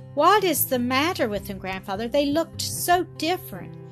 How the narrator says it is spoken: Heidi exclaimed in her fright

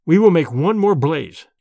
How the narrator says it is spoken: said firmly

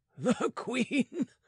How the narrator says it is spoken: said the other, laughing

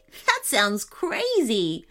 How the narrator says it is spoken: laughed Jeff

